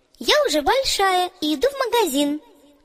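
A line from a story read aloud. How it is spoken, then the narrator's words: Cheerful reply. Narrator (Russian): весело ответила Оля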